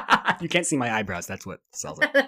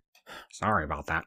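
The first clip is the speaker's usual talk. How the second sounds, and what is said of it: Imitates another person's voice. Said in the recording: “This is my Eugene Levy impression. ... It's like technically some of the elements are correct.”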